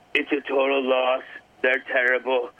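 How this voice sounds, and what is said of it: Donald Trump impression. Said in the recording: “you're doing a Donald. Everybody's doing a Donald Trump impersonation. That's pretty good.”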